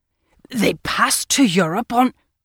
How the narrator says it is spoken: he broke down with a bad fit of choking, the result of an immoderate mouthful of kipper bones

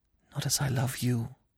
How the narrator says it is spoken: she whispered

